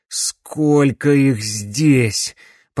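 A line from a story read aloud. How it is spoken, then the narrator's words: Groaning. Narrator (Russian): простонал Макс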